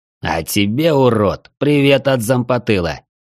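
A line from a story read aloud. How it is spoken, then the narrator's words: Hissed. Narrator (Russian): прошипел один из них Раздор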